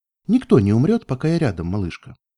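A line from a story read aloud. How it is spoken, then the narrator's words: Forced calm interruption. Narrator (Russian): прервала, стараясь, чтобы голос звучал как можно более спокойно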